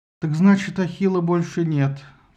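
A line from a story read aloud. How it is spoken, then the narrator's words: Sighed. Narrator (Russian): вздохнул Филактет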